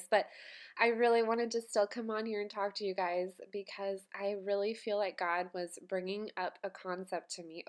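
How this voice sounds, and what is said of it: Congested voice from a cold. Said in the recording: “I have a little bit of a cold today. You're going to hear that in my voice”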